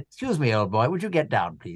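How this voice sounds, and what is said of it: Posh RP English accent. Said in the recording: “You have to do it in what an RP. RP, all yes. Accents have to be an RP. ... RP now, because that's my authentic voice.”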